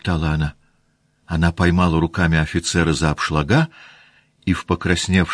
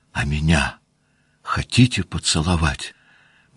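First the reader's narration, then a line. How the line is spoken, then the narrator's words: Barely audible tearful whisper. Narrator (Russian): прошептала она чуть слышно, улыбаясь и чуть не плача от волнения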